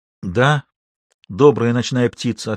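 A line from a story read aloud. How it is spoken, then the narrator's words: Plain. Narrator (Russian): ответил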